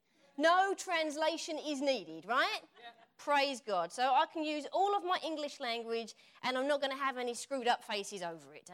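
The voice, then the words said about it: Essex English accent. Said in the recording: “my Essex accent comes out and everyone can understand me just perfectly”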